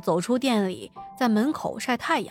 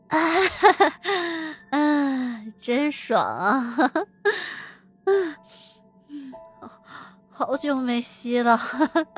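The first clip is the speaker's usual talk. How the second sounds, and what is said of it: Hoarse, moaning voice. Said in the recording (Chinese): “很沙哑的声音”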